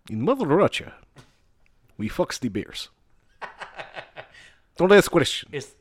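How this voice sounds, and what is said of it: Put-on Russian accent. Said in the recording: “Would you rather me have a Russian accent?”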